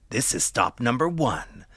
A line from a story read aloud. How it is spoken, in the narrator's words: the old Grinchy Claus hissed